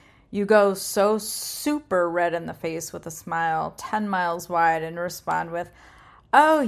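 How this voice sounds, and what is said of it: Usual voice. Nothing is said of it.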